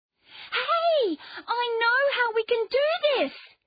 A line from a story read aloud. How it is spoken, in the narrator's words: she shouted